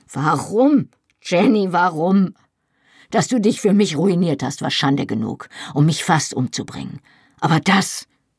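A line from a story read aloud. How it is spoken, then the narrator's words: Calling out. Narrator (German): rief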